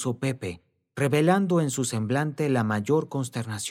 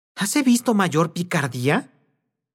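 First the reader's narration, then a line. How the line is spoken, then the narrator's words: Woman's startled exclamation. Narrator (Spanish): exclamó la señora, volviendo de su estupor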